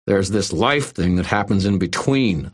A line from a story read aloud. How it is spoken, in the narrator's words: I snarled